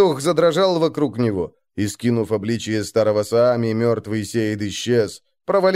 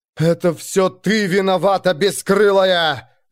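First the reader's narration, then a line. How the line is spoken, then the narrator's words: Shouting. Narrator (Russian): закричала Янна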